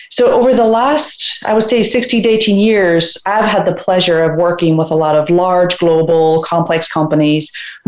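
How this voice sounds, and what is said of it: Irish accent. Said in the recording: “you can probably detect from my accent, I am not a native Georgian. I'm originally from Ireland”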